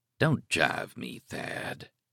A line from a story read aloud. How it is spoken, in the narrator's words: said softly